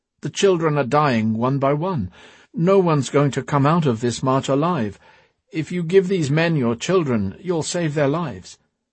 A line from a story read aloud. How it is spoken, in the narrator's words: she pleaded